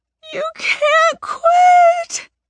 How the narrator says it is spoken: she sobs

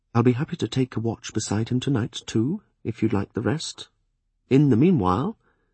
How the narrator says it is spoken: Webb said quietly

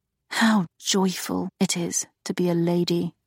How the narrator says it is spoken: she muttered

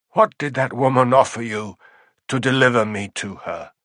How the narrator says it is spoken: he asked Dunk in a bleak voice

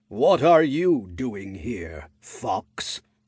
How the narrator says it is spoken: a booming voice asked

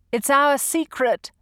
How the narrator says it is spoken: called out

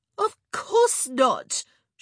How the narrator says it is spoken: she exclaimed

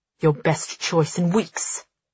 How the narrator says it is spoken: he snaps

